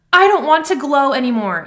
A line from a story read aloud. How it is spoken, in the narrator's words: Jem wailed